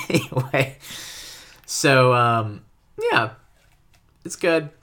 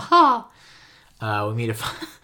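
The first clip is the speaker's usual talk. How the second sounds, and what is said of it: Mickey Mouse cartoon voice. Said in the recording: “my Mickey Mouse impersonation”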